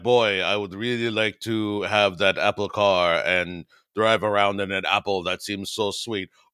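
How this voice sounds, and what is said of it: Put-on accent. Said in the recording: “That's my Adriani accent, I think.”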